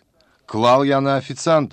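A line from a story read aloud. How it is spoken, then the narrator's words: Shout. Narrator (Russian): выкрикнул Баскин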